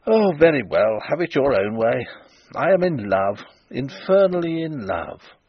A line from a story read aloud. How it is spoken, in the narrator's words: he exclaimed